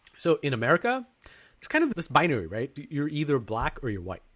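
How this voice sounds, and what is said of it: Put-on American accent. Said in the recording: “I have an American accent now that I'm putting on for this conversation.”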